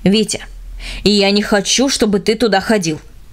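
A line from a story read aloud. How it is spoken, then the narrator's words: Stern father, stressing each word. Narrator (Russian): наконец строго сказал отец, делая ударение на каждом слове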